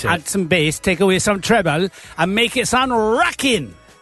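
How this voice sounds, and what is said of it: Put-on Welsh accent. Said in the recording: “That's my Welsh impression.”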